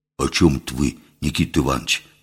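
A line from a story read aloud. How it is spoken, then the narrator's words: Artless whisper. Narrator (Russian): простодушно шепнул Митька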